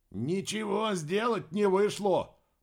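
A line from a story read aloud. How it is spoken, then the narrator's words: Hoarse speaker crackle. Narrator (Russian): прохрипел динамик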